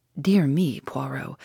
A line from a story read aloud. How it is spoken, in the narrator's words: I said with a sigh